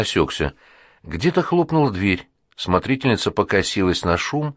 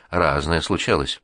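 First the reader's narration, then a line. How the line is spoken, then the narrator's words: Calm. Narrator (Russian): спокойно сказала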